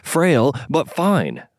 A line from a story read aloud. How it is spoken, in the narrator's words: Lei exclaimed